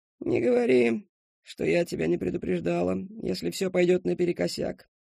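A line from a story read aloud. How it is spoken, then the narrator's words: Old woman's grumble. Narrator (Russian): проворчала старая миссис Хэмпсток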